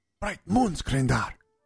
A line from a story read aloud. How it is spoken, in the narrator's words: Sinj whispered, nearly spitting his coffee back out onto the floor